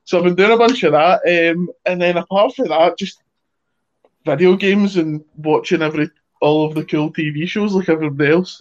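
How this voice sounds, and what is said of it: Scottish accent, fairly high-pitched voice. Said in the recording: “I was a Scottish character, so I didn't need to put on an accent. I was just kind of me, but way a bit lower because my voice still sounds like I'm like just about to hit puberty”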